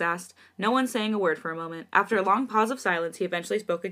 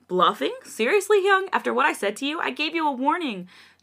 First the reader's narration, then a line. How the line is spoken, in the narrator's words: Jongin exclaimed in a concerned tone